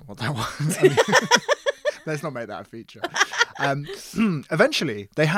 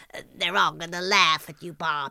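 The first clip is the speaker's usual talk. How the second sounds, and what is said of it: Impression sounding like Marge Simpson. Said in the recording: “your weekly impression ... That's more Marge Simpson, isn't it?”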